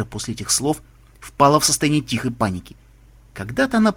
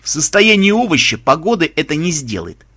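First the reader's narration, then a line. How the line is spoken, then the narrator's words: Snorting. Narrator (Russian): фыркнул Меченый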